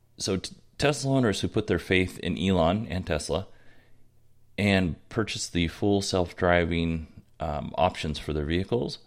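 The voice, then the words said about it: Voice with a cold, rushed. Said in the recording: “You can probably tell I have a little bit of a cold, ... I'm rushing through this so that my voice doesn't go before the end of the show. So sorry if it sounds rushed.”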